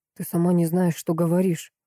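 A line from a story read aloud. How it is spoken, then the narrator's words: Frightened whisper. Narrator (Russian): прошептал Пауль испуганно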